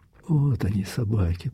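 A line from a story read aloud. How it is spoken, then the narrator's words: Whisper. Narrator (Russian): прошептал Андрей Ерин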